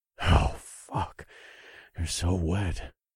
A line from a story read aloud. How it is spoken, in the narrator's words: I muttered, and despite my efforts to keep my voice steady, my words shook